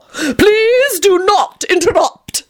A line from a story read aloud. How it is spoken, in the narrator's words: he called out loudly